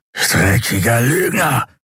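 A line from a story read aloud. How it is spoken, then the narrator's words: Hissing angrily. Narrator (German): fauchte er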